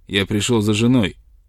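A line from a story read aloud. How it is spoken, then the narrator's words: Rude, possessive. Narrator (Russian): грубо произнес Бентом, и в его интонации был неприятный привкус собственника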